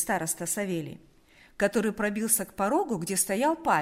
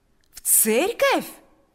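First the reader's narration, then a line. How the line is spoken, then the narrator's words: Joyful exclamation. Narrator (Russian): воскликнул Павел с таким радостным выражением лица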